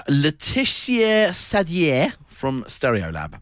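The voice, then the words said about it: French-accented name pronunciation. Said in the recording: “Impeccable accent there”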